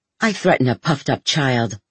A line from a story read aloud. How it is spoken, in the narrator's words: snarled